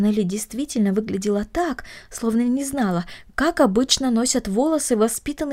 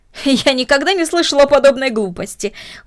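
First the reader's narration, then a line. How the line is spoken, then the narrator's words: Exclaimed. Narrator (Russian): воскликнула мисс Дорнер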